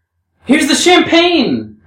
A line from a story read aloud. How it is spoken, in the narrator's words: Rakitin cried